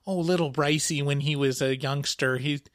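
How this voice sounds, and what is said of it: Put-on Midwestern accent. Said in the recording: “I'm giving my mom a Midwestern accent”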